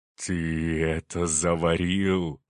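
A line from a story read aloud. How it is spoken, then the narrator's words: Hiss. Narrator (Russian): прошипел он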